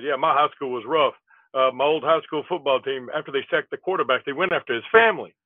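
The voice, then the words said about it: Rodney Dangerfield impression, not very good. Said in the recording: “that was my Rodney Dangerfield impersonation ... That wasn't as good as most of you”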